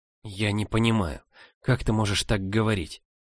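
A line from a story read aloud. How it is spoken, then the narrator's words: Barely audible, fearful. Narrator (Russian): ответила еле слышно, все еще боясь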